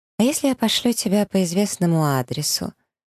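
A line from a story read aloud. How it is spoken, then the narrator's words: Deceptively sweet tone. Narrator (Russian): Интересуюсь обманчиво ласковым тоном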